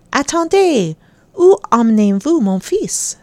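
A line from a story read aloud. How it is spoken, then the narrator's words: Exclaimed. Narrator (French): s'écrie-t-elle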